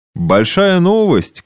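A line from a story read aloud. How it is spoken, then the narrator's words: Shouting. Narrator (Russian): кричал он Шадурскому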